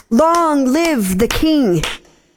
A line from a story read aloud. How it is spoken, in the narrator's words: the crowd clapped and shouted